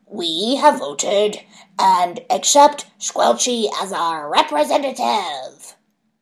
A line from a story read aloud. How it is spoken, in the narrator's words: said a raspy voice that probably belonged to Stabby Gnome